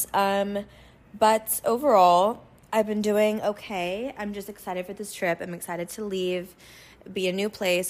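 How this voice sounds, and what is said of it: Hoarse, slightly husky voice. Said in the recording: “You can still hear it in my voice. It sounds like a little sexy, but it's also kind of annoying... the hoarseness”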